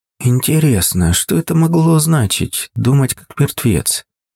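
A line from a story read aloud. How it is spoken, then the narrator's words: Quiet, careful. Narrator (Russian): Тихо произнесла тетя Маша, чтобы не вызвать у матери повторную волну эмоций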